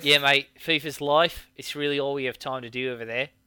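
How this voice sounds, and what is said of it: Put-on Kiwi accent. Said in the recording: “I'm doing a Kiwi accent and I'm meant to do like more of a British accent.”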